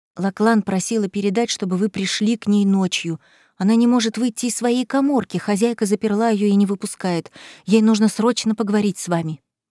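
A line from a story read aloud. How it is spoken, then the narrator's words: Maid whispering. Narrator (Russian): служанка шепнула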